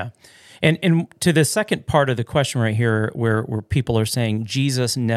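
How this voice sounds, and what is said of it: Usual voice. Nothing is said of it.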